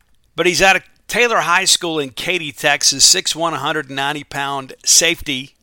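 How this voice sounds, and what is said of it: Hoarse, rough voice. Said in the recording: “Your good friend and host sounds a little hoarse... I don't have that smooth timbre in my voice”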